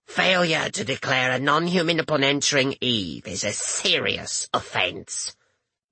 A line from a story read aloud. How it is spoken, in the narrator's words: the woman rasped out